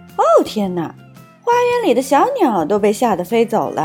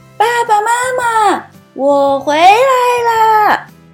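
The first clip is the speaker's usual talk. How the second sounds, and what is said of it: Very loud shouting voice. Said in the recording (Chinese): “的嗓门特别大 ... 如果你能稍微小声一点点就好了”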